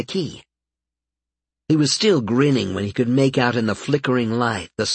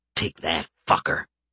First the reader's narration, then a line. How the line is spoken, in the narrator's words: he said under his breath